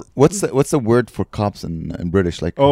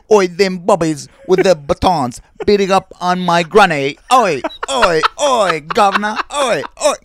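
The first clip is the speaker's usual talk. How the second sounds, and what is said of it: Mock British accent. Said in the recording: “Your British accent, you can't. I'm sorry.”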